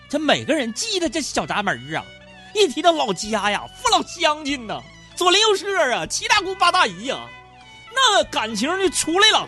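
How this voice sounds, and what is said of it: Northeastern Chinese accent. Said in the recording (Chinese): “听我这口音都变回东北口音了”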